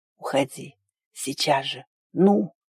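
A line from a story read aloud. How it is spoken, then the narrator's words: Muffled mutter, then sharper. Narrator (Russian): глухо пробормотал, уже резче добавил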